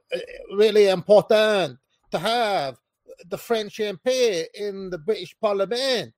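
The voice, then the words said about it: Poor put-on French accent. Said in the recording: “a French dude was up there saying ... That's a terrible accent”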